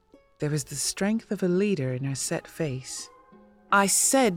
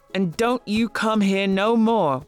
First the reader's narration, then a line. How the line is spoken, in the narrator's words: one of the men yelled when I was almost out of sight